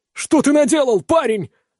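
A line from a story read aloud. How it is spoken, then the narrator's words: Screaming in horror. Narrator (Russian): в ужасе вопит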